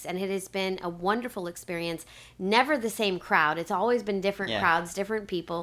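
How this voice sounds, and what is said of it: Slightly nasal, congested voice. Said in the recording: “you could probably hear it in my voice ... after Easter, I got really sick ... if my voice has been a little bit nasally”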